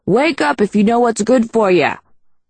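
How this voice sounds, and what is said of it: Hollering in thick Peckerwood accent. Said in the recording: “hollered in a thick Peckerwood accent”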